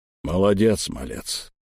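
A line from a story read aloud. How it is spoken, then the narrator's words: Grumbled. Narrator (Russian): буркнул мне Эльм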